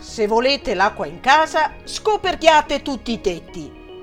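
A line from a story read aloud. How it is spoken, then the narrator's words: Shouting from a balcony. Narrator (Italian): urlò dal balcone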